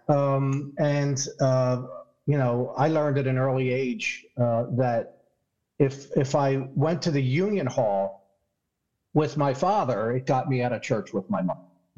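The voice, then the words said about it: Philadelphia accent. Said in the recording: “if I sound funny, I'm from Philadelphia. That's my Philadelphia accent.”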